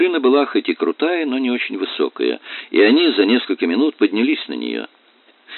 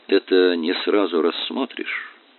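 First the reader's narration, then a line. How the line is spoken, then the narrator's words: Quiet. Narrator (Russian): тихо произнес он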